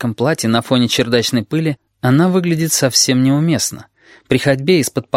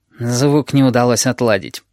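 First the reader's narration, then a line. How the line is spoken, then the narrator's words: Gloomy. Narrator (Russian): говорит Химера мрачно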